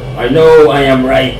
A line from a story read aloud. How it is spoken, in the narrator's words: shouted Ego